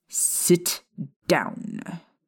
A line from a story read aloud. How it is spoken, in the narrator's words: Snape snapped at Hermione